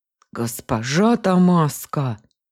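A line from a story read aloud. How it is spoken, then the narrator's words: Growled in unison. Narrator (Russian): хором рыкнули на меня все трое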